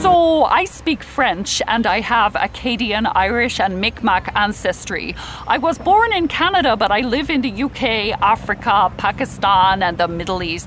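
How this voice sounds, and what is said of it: Mixed accent. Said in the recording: “my accent is in a war zone, where it fights itself”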